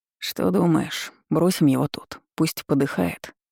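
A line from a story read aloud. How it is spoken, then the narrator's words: Plain. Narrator (Russian): спросил Шаур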